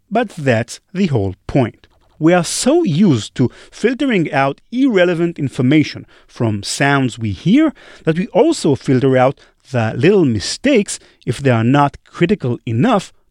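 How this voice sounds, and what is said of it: Noticeably different accent. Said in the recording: “my accent is slightly different. well, maybe not that slightly, really, than what you're accustomed to hearing”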